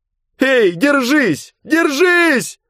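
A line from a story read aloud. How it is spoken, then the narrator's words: Girl shouting. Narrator (Russian): кричала девушка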